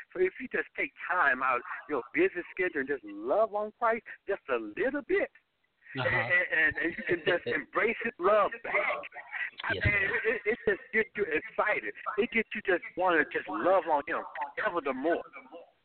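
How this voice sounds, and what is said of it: Enthusiastic, excited speaking voice. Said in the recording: “I hear the enthusiasm in your voice.”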